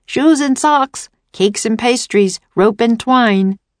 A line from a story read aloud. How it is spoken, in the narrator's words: They shouted about their wares